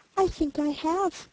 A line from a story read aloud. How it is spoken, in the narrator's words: replied the prince very gently